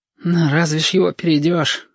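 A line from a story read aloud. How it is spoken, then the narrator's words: Sighing. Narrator (Russian): вздохнул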